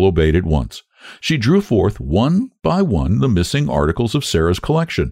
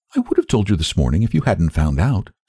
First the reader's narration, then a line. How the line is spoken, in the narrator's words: said the little girl calmly